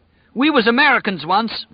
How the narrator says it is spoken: Whitney cried at last

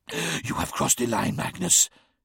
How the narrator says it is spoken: hissed Mortarion

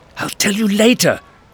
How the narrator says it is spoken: Victoria hissed

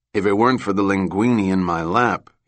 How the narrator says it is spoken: he said then

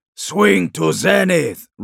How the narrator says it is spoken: roared Shiban

